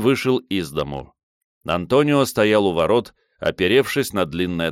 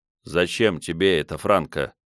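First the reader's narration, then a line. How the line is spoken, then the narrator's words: Gentle question. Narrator (Russian): мягко спросил он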